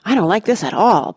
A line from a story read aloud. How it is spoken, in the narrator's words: panted Sam, just behind